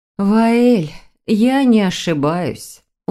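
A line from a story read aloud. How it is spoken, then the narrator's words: Weary sigh. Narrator (Russian): устало вздохнула Вероника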